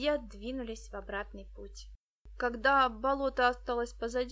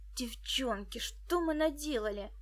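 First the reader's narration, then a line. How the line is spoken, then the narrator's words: Exclaimed. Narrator (Russian): воскликнул он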